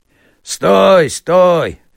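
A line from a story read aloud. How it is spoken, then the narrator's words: Men shouting. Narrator (Russian): кричали мужики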